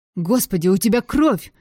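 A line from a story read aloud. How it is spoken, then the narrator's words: Yelling. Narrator (Russian): завопил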